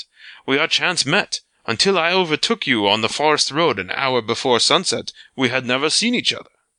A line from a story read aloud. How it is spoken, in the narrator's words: the Frenchman laughed